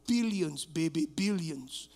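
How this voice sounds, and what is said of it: Put-on Middle Eastern accent. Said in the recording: “with my Middle Eastern accent.”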